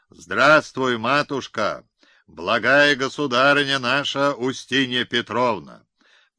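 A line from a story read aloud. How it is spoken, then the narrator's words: Exclaiming. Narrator (Russian): воскликнул книжный и набожный Каргин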